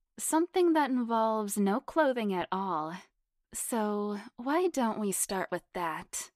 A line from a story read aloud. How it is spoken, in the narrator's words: Jessica purred hotly